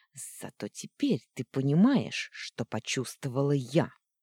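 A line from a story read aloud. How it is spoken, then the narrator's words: Angry hiss. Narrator (Russian): зло прошипела она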